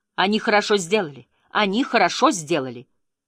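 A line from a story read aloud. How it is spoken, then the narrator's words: Urge to shout. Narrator (Russian): Мне хотелось крикнуть ей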